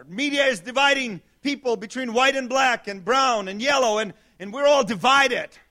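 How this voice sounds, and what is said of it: Non-native foreign accent. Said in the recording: “a pastor with an accent who wasn't born here”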